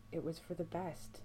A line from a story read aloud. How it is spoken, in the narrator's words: Sam whispers towards the floor